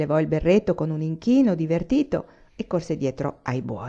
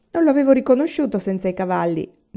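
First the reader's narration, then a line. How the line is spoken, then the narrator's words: Laughing. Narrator (Italian): disse Laura ridendo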